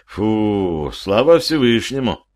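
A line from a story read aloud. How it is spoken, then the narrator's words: Relieved sigh. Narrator (Russian): облегченно вздохнул я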